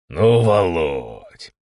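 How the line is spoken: Drawled with a smile. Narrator (Russian): С улыбкой протянул Степан Викторович Державин

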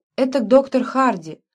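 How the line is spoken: Sudden trembling voice. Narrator (Russian): произнесла вдруг девушка дрогнувшим голосом

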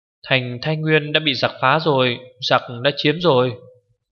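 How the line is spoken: Girl crying out. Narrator (Vietnamese): Cô gái kêu lên

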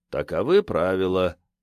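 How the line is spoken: Flat, colorless voice. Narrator (Russian): все тем же блеклым голосом сказал он

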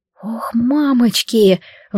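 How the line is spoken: Breathed out. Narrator (Russian): выдохнула я

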